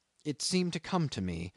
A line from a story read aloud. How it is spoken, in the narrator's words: he murmured